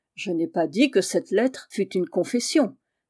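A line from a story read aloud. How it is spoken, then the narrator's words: Irritated voice. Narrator (French): dit Bajolin d'une voix irritée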